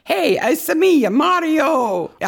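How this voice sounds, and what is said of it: Exaggerated bad Italian accent. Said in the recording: “The worst Italian accent. ... She does a Luigi Italian accent.”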